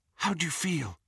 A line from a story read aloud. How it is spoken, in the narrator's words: Hermione whispered